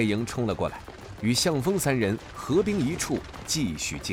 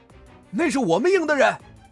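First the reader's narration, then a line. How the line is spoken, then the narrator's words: Shouting together. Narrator (Chinese): 林正杰、黄夏、项羽……齐齐大喊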